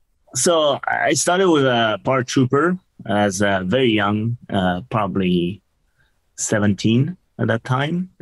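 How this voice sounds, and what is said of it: French accent. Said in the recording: “You are from France. Everybody should probably know that by now with your accent.”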